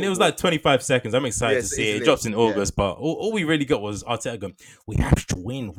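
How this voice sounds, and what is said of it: Usual voice. Nothing is said of it.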